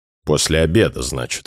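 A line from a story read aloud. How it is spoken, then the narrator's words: Sullen grumble. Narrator (Russian): хмуро пробурчал Афанасьев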